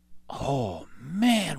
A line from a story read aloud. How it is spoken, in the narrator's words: whispered Jack